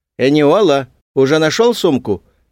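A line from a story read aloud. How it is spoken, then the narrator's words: Calling out. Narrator (Russian): крикнула тетя Кару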